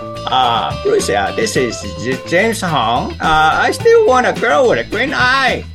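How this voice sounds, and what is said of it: Imitates another person's voice. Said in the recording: “I can do his voice for you right now.”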